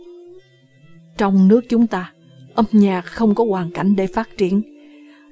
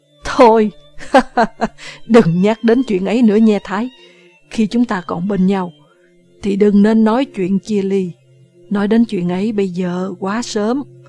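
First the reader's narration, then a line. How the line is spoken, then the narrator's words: Laughing. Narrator (Vietnamese): Nam cười to nói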